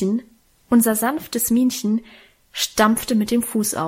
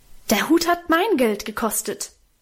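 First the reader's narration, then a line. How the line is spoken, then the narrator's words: Beside herself, shouting. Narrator (German): rief sie außer sich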